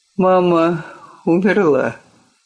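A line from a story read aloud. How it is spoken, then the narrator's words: Forced out, strained. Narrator (Russian): выдавил из себя отец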